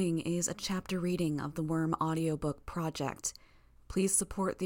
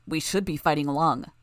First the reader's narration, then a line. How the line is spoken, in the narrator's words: Bitch growled